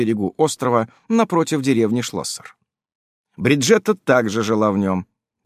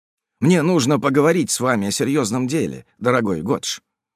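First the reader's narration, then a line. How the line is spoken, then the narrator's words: Plain. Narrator (Russian): сказал де Водрель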